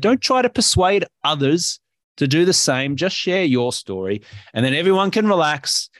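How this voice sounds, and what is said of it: Australian accent. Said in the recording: “your Australian accent helps too”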